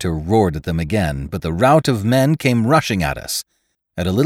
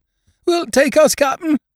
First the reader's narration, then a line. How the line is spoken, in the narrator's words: begged together